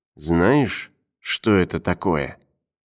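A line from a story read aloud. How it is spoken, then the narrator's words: Whispered question. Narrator (Russian): спросил тоже шепотом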